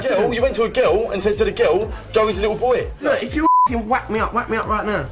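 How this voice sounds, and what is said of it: Estuary English accent. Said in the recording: “That's the estuarian accent, named for the place downriver from London. This accent is totally different from a London accent”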